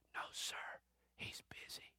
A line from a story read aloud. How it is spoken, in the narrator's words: The boy whispers